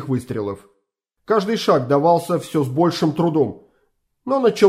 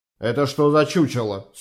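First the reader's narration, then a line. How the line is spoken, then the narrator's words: Stern question. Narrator (Russian): строго спросил майор Фрике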